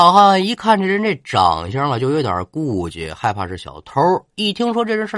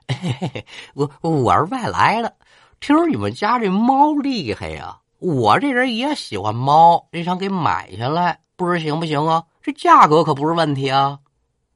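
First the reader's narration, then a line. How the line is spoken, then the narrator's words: Laughing. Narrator (Chinese): 笑着就说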